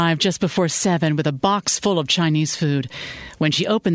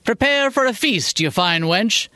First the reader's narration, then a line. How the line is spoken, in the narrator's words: he said in his best Shakespearean brogue